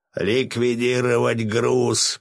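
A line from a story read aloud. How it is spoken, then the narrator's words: Hoarse rasp. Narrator (Russian): прохрипел Васильев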